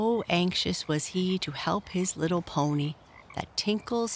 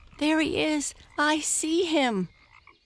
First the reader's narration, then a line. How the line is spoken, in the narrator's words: cried Tinkle's father